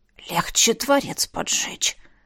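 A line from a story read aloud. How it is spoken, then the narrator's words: Hissing dragon. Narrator (Russian): прошипел дракон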